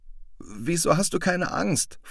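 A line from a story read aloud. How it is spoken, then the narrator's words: Trembling voice question. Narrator (German): fragte Cosmo mit zittriger Stimme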